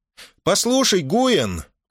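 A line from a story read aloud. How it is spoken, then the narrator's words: Shouting over rushing wind. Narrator (Russian): крикнула Мона Сеня, заглушая свист воздуха, рассекаемого кожистыми крыльями ее коня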